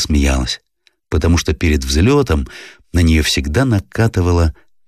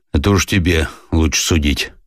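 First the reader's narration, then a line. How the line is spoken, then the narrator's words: Muttered. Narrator (Russian): буркнул Сеня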